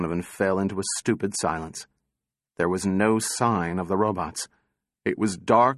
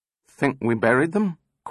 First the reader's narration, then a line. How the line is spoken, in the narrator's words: quavered Donovan